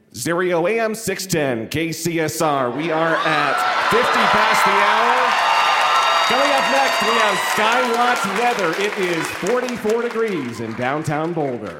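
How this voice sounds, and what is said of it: Radio DJ announcer voice. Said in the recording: “You also have a great voice... listen to that voice... It's a great radio voice... Can you do a little DJing”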